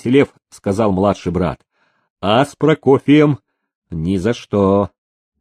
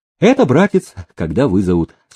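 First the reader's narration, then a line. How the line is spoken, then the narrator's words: Calm reply. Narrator (Russian): спокойно отозвался прибывший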